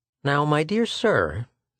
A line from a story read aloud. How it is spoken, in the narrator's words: said Schecht kindly